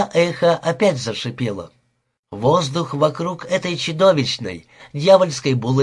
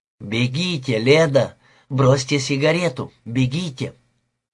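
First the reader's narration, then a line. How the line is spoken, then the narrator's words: Soft cry, overwhelmed emotion. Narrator (Russian): тихонько вскрикнула, как будто сдерживаемые ее долгое время эмоции оказались сильнее ее воли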